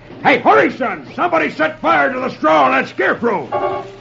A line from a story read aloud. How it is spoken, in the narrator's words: hears one shout